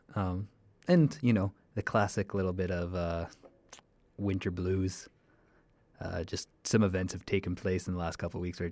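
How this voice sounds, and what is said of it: Quieter, soft mic voice. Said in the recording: “my voice is a little bit different... my stage voice, my mic voice, which is a little quieter than normal”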